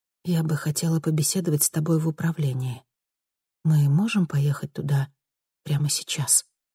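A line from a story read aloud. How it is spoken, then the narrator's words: Hushed question. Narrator (Russian): вполголоса спросила Луиза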